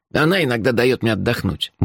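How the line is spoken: Muttered. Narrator (Russian): буркнул он

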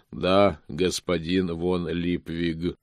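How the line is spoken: Calm agreement, golem. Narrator (Russian): спокойно согласился голем

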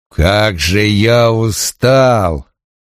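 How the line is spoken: Whiny, offended drawl. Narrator (Russian): обиженно протянул он

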